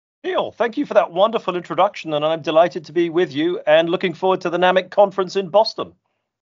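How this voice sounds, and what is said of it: British accent. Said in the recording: “You're obviously from your accent, not from around here ... I am indeed British”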